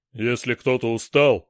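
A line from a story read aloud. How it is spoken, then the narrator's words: Barked. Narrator (Russian): рявкнул Дор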